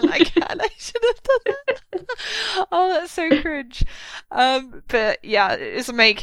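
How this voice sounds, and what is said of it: Usual voice. Nothing is said of it.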